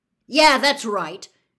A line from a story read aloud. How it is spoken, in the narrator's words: Harry found himself shouting, having had just about enough